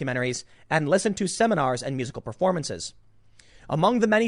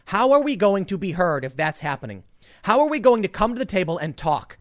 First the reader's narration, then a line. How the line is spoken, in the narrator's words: group of people shouted down